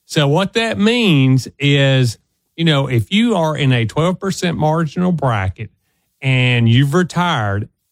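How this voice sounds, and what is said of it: Strong Southern US accent. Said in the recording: “I'm from the South and I got a strong accent.”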